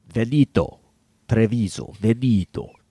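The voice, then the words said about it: Put-on Italian accent. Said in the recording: “See, now you're doing the accent.”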